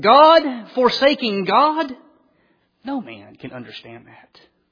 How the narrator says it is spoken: after many hours of deep meditation, that Luther arose and exclaimed

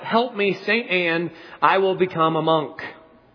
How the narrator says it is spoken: He cried out

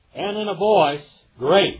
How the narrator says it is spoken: he cried out

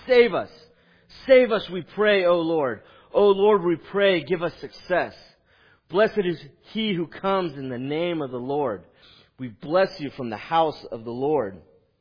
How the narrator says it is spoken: the people are shouting

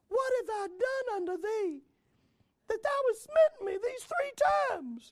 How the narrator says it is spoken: she said unto Balaam

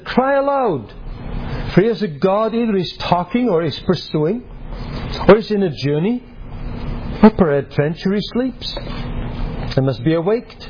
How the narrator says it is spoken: Elijah mocked them and said

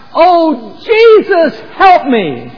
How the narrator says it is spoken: cried out

